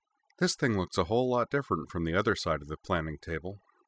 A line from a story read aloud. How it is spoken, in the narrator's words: sighed to herself